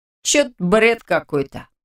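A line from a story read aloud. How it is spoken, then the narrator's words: Snort. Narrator (Russian): хмыкнул рядом Радик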